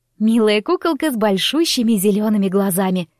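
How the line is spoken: Laughing. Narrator (Russian): рассмеялась Мира

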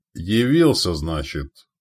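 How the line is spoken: Dry smirk. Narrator (Russian): сухо усмехнулся Яволод

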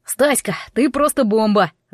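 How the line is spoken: Yelling. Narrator (Russian): завопил Вадька

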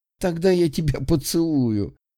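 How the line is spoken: Laughing. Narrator (Russian): Засмеялась она

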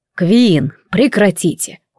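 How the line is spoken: Weary sigh. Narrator (Russian): устало вздохнул законник

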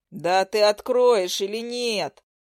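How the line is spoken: Thundering. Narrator (Russian): Прогремел Леха

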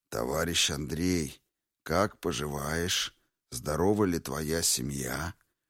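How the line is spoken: Gentle, polite. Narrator (Russian): Ласково-вежливый тон Мансура

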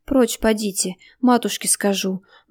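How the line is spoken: Mumbled while struggling. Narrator (Russian): бормотала Наташа, отбиваясь

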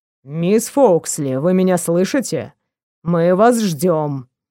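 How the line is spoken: Man, clipped, restrained irritation. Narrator (Russian): процедил мужчина, сдерживая легкое раздражение

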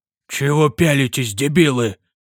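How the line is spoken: Hoarse, resolute grumble. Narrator (Russian): Буркнул барон, и его голос прозвучал хрипло, но решительно

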